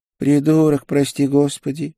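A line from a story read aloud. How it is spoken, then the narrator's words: Resigned sigh. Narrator (Russian): обреченно вздохнул проповедник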